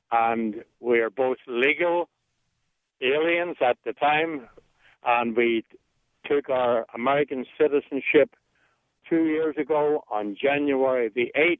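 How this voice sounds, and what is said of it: Voice of someone with a cold. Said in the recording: “Excuse me, I've got a cold.”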